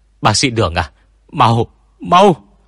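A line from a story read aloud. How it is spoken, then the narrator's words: Panicked cry. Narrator (Vietnamese): Một y tá thất thanh kêu lên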